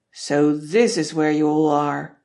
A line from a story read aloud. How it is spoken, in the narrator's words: Dad will roar